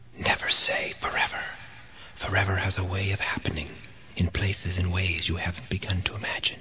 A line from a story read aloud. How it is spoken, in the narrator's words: The house seemed to whisper